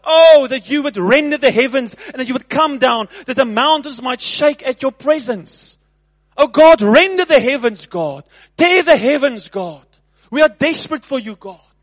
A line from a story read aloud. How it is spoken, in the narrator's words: he cried out